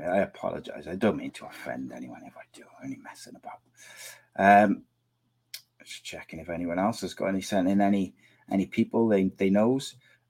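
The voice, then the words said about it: Hoarse, strained, failing voice. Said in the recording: “I'm losing my voice.”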